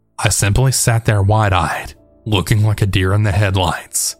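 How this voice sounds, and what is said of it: Usual voice. Nothing is said of it.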